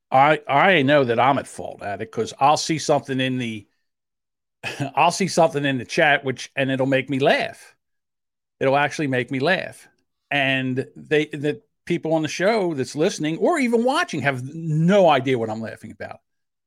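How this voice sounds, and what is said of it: South Jersey accent. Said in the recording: “talk with my South Jersey accent instead of talk. It's talk. ... I have a South Jersey accent.”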